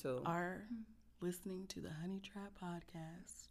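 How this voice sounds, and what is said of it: Smooth late-night radio DJ voice. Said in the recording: “my quiet storm voice”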